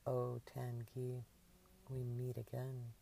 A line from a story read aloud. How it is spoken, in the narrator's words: she chuckled to herself and whispered in a mock ominous tone